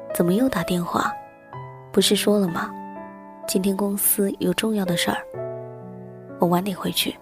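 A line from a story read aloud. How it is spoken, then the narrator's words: Annoyed, low voice. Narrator (Chinese): 他皱着眉头，低声地说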